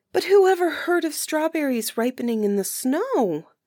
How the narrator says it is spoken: exclaimed Marukla

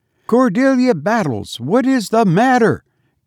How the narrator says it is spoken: cried Mrs

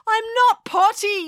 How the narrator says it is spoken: yelled April

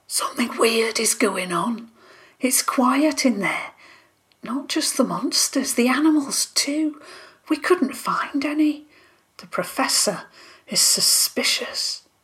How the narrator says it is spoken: she whispered

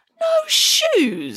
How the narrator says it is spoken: exclaimed Hannah Piggins

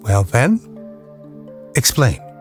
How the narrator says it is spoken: asked, in a very calm voice

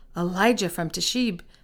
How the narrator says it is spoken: the king exclaimed

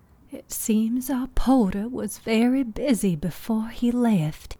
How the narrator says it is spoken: Aunt Nuala said, her voice tinged with sadness

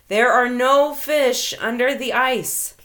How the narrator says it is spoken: he hears the booming voice

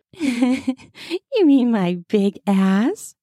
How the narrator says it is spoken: I chuckle

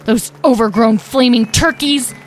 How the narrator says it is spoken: Talora growled to herself

